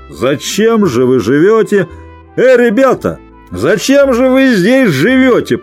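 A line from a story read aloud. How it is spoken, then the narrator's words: Drunken laughter. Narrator (Russian): прибавил он с пьяным хохотом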